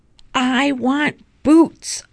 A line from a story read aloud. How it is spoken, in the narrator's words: Ollie shouts